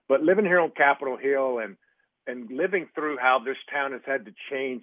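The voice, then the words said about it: Rural East Texas accent. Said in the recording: “as you can tell from my voice, in rural East Texas”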